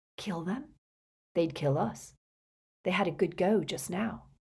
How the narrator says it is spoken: Then, even more quietly

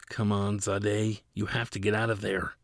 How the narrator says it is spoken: whispered

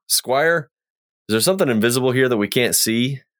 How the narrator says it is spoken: holler out

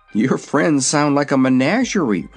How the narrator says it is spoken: remarked Zeb, uneasily

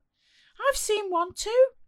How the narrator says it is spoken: she shrieked

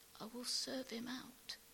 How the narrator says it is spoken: Barney whispers, and then with increasing noise and urgency, as the tears spring to his eyes,

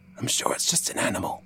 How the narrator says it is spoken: Samuel whispered

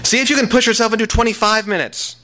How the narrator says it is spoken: Miranda yelled

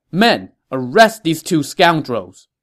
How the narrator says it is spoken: Liu Bei shouted

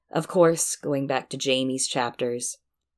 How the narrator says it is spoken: Jamie chuckled

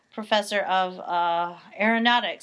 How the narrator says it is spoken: I stuttered

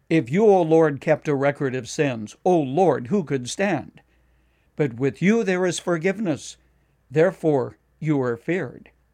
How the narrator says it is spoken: David cried out

